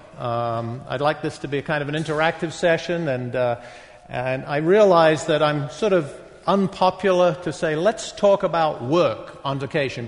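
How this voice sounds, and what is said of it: Northern English accent with American influence. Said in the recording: “So I'm going to explain my accent. I was born, grew up in the northeast of England, spent a bunch of time in London ... the rest of my time in Boston ... that's the Boston accent. I say, yeah, it's the original Boston accent.”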